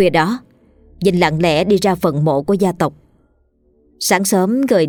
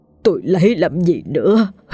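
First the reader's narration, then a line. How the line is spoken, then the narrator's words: Bitter sobbing, tearful. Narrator (Vietnamese): Vinh khóc lóc thảm thiết rồi nói trong nước mắt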